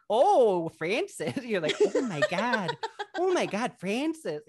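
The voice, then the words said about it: Imitated Michigan Midwestern accent. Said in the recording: “her accent is so ... it was very like, I'm from Michigan. It was very like that vibe ... She's not Midwest”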